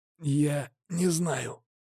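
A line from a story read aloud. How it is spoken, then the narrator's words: Quiet. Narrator (Russian): тихо произнес оборотень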